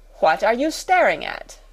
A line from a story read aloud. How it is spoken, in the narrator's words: demanded Miss Minchin sharply